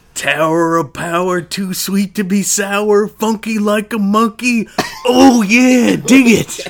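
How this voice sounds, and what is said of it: Macho Man Randy Savage impression. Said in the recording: “your best Macho Man imitation”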